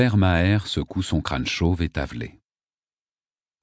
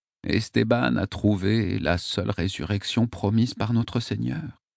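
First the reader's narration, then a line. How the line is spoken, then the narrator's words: Tearful murmur. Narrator (French): murmure-t-il, les larmes aux yeux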